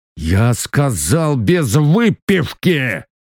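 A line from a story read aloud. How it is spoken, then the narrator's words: Highlander growling. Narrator (Russian): Горец рыкнул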